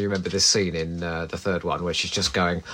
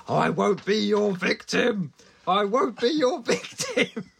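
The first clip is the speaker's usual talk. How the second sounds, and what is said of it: Aggressive shouted impression of another person. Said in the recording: “my impression of her ... I don't think she's as aggressive as that ... Just for dramatic effect”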